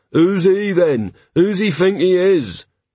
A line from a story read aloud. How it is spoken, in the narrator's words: jeers and various flatulent noises and murmurs